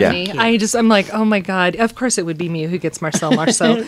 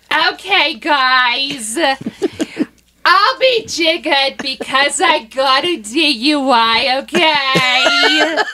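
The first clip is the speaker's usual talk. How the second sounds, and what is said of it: Imitates another person's voice. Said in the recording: “my accent is Fran Drescher ... Channel your inner Fran. You're the nanny.”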